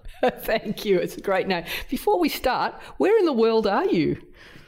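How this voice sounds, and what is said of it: Strong Australian accent. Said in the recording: “my strong Australian accent”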